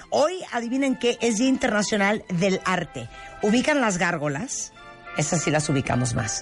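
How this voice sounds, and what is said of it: Hoarse voice. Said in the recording (Spanish): “estoy ronca, Rebeca. Estoy ronca esta mañana”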